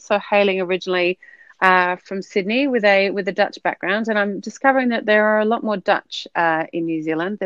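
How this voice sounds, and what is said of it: Australian accent. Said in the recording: “you can probably tell by my accent, I am an, an Aussie”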